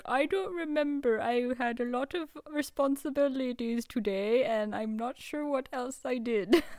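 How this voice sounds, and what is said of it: Put-on lodge owner character accent. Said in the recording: “That's my lodge owner accent.”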